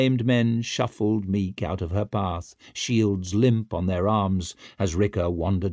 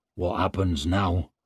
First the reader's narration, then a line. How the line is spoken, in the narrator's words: muttered Hardbread